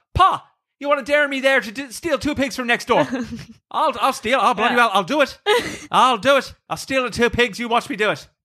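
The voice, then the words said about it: Put-on Irish accent. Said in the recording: “can you do it in an Irish accent, though?”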